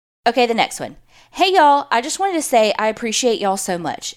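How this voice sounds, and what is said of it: Southern US accent. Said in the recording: “My whole family is from the South, so your accents are very comforting for me.”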